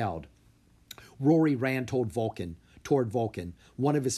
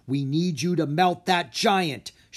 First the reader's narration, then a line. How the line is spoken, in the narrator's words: she yelled